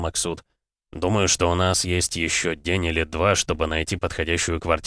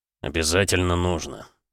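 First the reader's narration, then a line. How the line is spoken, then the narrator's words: Sigh. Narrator (Russian): вздохнул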